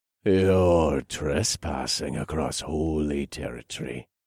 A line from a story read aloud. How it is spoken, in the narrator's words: growled